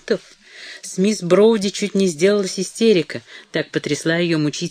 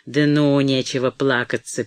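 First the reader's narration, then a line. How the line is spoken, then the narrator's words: Rude interruption. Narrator (Russian): перебил он грубо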